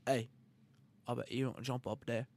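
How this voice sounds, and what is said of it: Bad Australian accent imitation. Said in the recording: “Which is a terrible Australian accent.”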